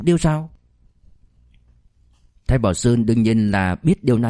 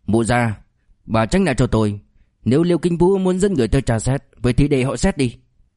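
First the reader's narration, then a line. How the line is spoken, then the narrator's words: Angry shout. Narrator (Vietnamese): Thái Bảo Sơn liền tức giận quát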